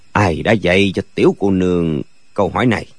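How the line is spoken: Low quiet question. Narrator (Vietnamese): Dư Thương Hải trầm giọng hỏi khẽ

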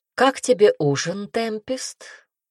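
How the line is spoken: Plain. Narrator (Russian): спросил король

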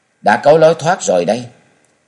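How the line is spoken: Loud. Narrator (Vietnamese): lớn tiếng nói rằng

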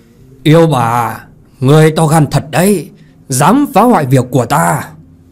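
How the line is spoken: Angry roar, old man. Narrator (Vietnamese): Thiên quạt lão nhân giận dữ mà gầm to

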